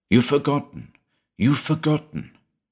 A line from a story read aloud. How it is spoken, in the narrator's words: Far away it whispered urgently